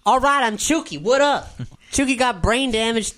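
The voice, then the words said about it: New character voice, different dialect. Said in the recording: “a different voice for Chuki ... Totally different dialect now.”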